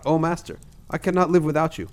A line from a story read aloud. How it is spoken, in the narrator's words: the woman who had been his slave, but was now a free woman, called out